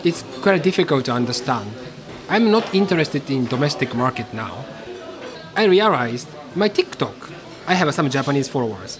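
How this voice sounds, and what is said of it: Japanese-accented English. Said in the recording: “they always mention about my accent. Oh, his English is shit”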